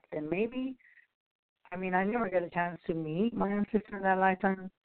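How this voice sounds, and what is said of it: Soft-spoken voice. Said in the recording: “my voice is so soft ... that's why your voice is so soft, because she had a soft spoken voice”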